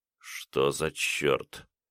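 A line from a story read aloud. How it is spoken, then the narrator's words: Mumbling with numb lips. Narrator (Russian): пробормотал он непослушными губами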